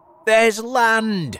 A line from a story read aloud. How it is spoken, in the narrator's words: shouted the centipede